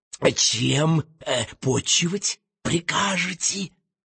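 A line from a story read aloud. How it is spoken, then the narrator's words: Intimate whisper. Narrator (Russian): шепнул белозубый пират и еще интимнее шепнул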